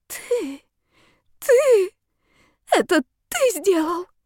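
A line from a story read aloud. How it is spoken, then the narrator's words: Weak hoarse cry. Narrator (Russian): выкрикнула слабым и хриплым, как после долгого сна, голосом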